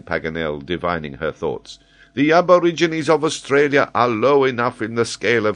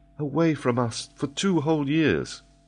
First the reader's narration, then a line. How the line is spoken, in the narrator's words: murmured Mary